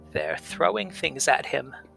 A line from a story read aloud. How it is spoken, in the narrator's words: croaked the old woman